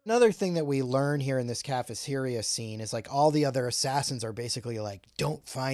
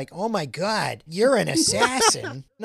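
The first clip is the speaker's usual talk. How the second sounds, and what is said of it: Put-on Massachusetts accent. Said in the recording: “She probably talks with a mass accent.”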